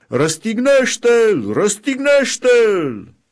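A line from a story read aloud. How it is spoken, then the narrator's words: Crowd beginning to shout. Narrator (Romanian): preoții cei mai de seamă și aprozii, au început să strige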